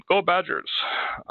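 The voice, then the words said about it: Put-on Russian accent. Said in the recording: “It's very cute to hear with a Russian accent.”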